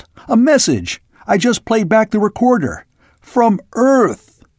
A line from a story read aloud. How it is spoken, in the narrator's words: he yelled